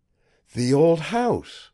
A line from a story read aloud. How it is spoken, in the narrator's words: I exclaimed